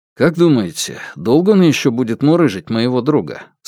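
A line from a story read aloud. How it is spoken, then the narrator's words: Plain. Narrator (Russian): спросил он старуху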